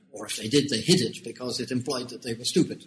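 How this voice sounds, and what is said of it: British accent. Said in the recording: “you can tell from my accent that although I've been in Hong Kong for 30 years, I'm actually born in the United Kingdom”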